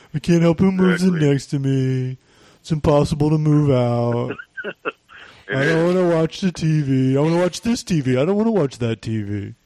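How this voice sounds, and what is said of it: Imitates another person's voice. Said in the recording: “How's my impression? ... That's pretty good. ... That's not very good.”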